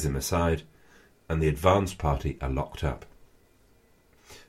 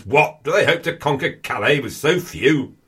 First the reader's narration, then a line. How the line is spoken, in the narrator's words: he looks a bit confused and bellows